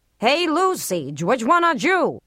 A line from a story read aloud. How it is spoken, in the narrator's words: the audience had howled